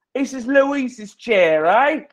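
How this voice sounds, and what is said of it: Poorly done put-on accent. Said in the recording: “That's a terrible accent.”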